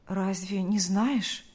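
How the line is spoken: Trembling voice. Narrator (Russian): произнес Павел дрогнувшим голосом

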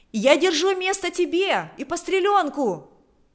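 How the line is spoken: Shouting. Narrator (Russian): кричала она

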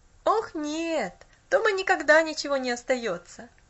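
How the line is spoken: Boy laughing. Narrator (Russian): засмеялся мальчик

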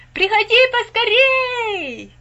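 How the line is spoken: Shouting brothers. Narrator (Russian): его три брата кричали ему

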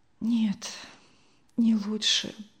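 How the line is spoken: Weak voice. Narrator (Russian): отозвалась она слабым голосом

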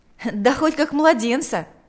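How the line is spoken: Boy answering, laughing. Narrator (Russian): ответил мальчик, рассмеявшись

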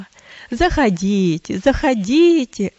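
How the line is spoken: Joyful exclaiming. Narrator (Russian): радостно восклицал

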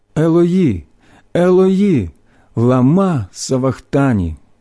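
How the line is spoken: Loud, strong cry. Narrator (Ukrainian): Ісус скрикнув голосом сильним

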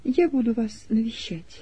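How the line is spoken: Quiet farewell. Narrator (Russian): Агнесса тихо сказала на прощание

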